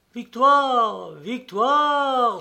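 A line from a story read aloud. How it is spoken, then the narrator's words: Exclaimed. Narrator (French): s'écria-t-il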